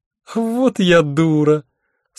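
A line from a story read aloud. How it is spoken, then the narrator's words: Relieved laughter. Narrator (Russian): с облегчением расхохоталась Альвианта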